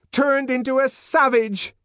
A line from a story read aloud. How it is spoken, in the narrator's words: shouted